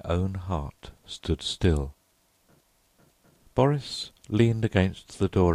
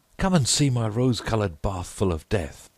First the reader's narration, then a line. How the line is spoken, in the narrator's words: cried